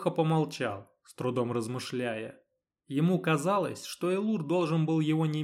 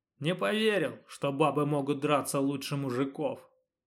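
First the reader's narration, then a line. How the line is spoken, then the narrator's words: Honest admission, groaning in pain. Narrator (Russian): честно признался Леха, прикусив распухшую губу и застонав от боли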